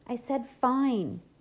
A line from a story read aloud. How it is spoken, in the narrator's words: he yelled back